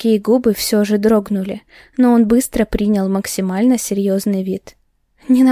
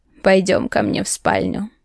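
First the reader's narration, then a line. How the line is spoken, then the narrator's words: Mocking. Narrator (Russian): насмешливо произнес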